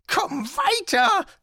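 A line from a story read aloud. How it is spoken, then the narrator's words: Hissing. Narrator (German): zischte er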